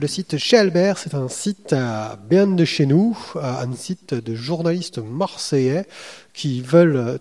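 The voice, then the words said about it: Put-on Marseille accent. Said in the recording (French): “je fais l'accent pas trop mal pour une fois. D'habitude, je l'exagère trop ... l'accent marseillais mal refait”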